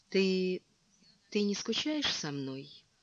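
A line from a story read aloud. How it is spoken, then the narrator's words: Timid question. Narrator (Russian): Лола робко спросила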